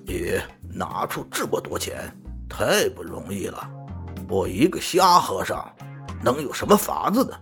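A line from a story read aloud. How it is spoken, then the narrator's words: Monk, sneering. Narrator (Chinese): 和尚冷笑着说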